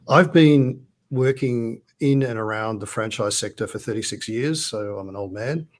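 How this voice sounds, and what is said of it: Australian accent. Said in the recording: “as you can tell from the accent, not in the United States ... It's Australia”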